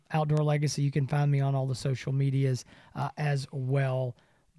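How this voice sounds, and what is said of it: Strained, hoarse voice from talking. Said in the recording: “lose your voice ... I am losing. I need a drink.”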